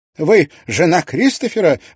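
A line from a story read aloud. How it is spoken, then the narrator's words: Exclamation. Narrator (Russian): воскликнула она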